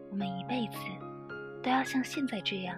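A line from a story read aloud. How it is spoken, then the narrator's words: Sudden soft voice. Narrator (Chinese): 如愿忽然轻声道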